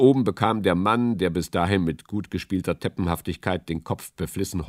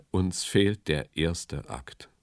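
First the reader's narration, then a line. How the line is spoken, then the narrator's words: Sighing. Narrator (German): seufzte er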